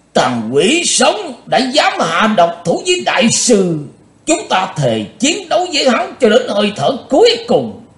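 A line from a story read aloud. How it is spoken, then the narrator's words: Cold, loud roar. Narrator (Vietnamese): Thành Dương đạo nhân mặt lạnh như đất, ông ta gầm to lên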